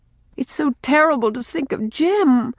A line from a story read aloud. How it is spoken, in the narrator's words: pleaded Rilla